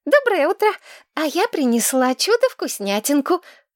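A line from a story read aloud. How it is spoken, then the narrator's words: Joyful. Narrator (Russian): радостно выдала Кристина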